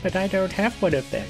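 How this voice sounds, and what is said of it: Whiny baby voice. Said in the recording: “in your whiny baby voice.”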